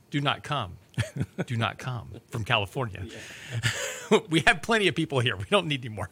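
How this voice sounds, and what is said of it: Imitates another person's voice. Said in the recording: “my best impression of Vice President Harris.”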